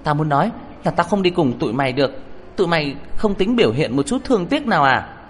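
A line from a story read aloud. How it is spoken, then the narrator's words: Shouting, clutching throat. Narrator (Vietnamese): tôi ôm cổ họng hét lên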